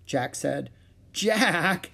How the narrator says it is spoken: Annie laughed

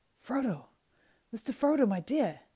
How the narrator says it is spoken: cried Sam, tears almost blinding him

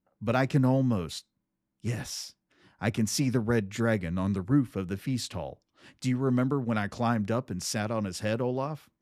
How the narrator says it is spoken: He laughed

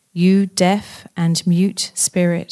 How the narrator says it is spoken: he said

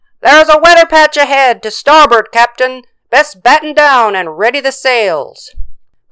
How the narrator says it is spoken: The lookout shouted

